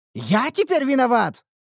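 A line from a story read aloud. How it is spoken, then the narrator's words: Indignant exclamation. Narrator (Russian): возмущенно воскликнул кузнец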